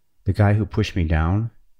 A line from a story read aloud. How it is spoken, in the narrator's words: said